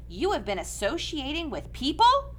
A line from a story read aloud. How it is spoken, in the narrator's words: cried his frightened mother